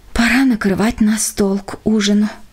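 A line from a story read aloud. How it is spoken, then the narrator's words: Sighing. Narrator (Russian): вздохнула она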